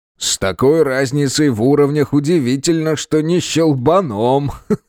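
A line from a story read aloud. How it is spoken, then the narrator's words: Big man chuckling. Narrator (Russian): хохотнул здоровяк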